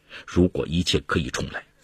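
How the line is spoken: Sick woman muttering to herself. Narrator (Chinese): 林芬一病不起，终日喃喃自语

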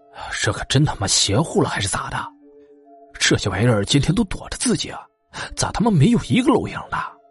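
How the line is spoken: Old man muttering. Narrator (Chinese): 老杨头……嘴里嘟囔

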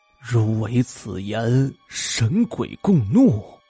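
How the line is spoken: Dazed murmur. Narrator (Chinese): 莫向文双目呆滞，喃喃的说道

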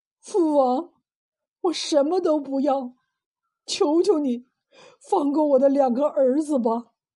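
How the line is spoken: Sobbing aloud. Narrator (Chinese): 三王子痛哭失声

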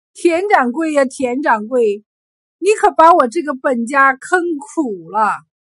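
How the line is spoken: Despairing sigh. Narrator (Chinese): 王秀才瘫软在地，叹声道

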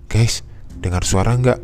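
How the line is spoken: Panicked, breathless tone. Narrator (Indonesian): kata saya dengan nada panik dan dada yang berdegup kencang

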